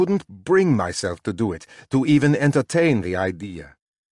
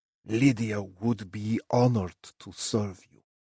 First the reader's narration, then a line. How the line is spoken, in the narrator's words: Basil said softly